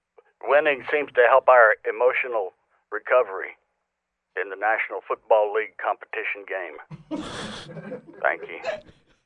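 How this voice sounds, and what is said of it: Southern American accent. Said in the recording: “I wish Jason Garrett sounded like that ... With that southern accent”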